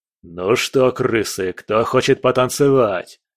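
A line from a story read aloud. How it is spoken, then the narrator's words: Growled. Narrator (Russian): Прорычал кувалда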